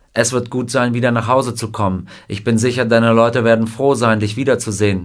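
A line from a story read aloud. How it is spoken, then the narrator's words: Plain. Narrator (German): sagte der Colonel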